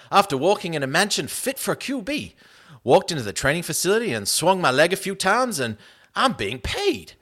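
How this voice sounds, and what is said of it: Put-on Southern accent. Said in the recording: “I don't know what this guy's accent is, so I'm just doing a southern accent.”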